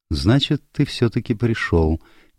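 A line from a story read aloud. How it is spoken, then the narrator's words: Quiet. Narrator (Russian): негромко сказала Селин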